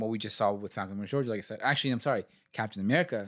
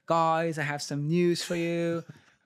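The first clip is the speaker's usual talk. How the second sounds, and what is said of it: Impression of Emilia Clarke. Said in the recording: “It's a great impression, bro.”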